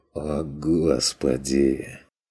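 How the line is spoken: Dreary mutter. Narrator (Russian): Тоскливо пробормотал Стрик

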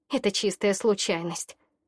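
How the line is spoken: Grumbled. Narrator (Russian): проворчала я

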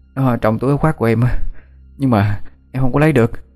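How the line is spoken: Breathless panting child. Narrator (Vietnamese): Thằng bé thở hổn hển như muốn đứt hơi

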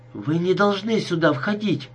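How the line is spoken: Frightened objection. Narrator (Russian): испуганно возразила Салли

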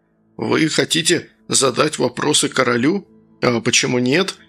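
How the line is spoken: Calm. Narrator (Russian): спокойно ответил Сергей

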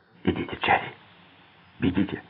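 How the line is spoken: Whisper. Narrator (Russian): прошептал

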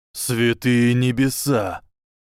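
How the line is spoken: Breathless exhale. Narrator (Russian): выдохнул человек

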